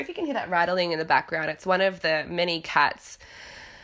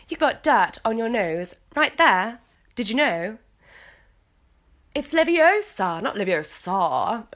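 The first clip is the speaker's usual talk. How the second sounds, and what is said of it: British accent imitating Hermione Granger. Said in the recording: “Whenever I do an English accent, a British accent, I have to channel Hermione Granger.”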